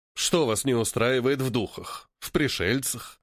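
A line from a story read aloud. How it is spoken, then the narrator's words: Sighing. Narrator (Russian): Вздохнул Поль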